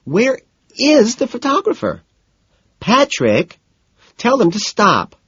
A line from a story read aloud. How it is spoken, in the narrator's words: Daisy squeals